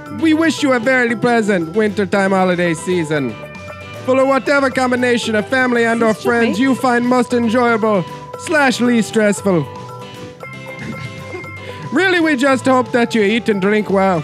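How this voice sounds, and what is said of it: Put-on Jamaican accent drifting Irish. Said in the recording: “Ah, it's going Irish. I'm losing it. It's going Irish... your Jamaican accent... it started out a little more Haitian, I think, than Jamaican”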